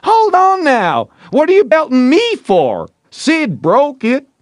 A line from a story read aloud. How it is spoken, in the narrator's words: Tom cried out